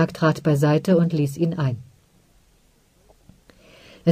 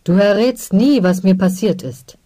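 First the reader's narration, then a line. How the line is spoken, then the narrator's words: Blustering outburst. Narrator (German): polterte Garobat sogleich los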